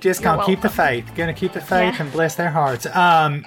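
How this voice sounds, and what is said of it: Put-on Savannah Southern accent. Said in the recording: “That was horrifying. ... That was if ... auditioned for Steel Magnolias. ... that was more Savannah, I think. That was more of a Savannah. ... accent.”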